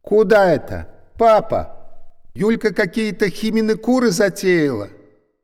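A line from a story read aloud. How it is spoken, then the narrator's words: Mother's protesting near-shout. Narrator (Russian): Мама почти кричала, пытаясь довести до сведения домашних, что она против такой самодеятельности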